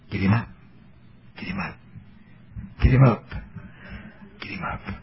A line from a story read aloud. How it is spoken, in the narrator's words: there'll be one of them in the congregation that'll be saying softly